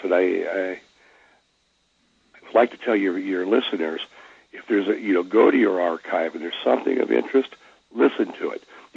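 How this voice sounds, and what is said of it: Voice affected, rough and congested. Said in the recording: “excuse my voice right now. My allergies are driving me nuts.”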